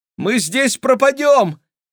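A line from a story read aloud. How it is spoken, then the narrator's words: Shouting. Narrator (Russian): крикнула Кира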